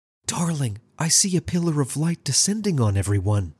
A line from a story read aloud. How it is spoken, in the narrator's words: Alice whispered back and smiled affectionately at her beloved